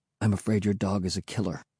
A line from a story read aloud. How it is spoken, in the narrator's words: he said softly